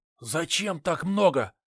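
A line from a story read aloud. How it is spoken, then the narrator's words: Whispered question. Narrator (Russian): также шепотом спросил я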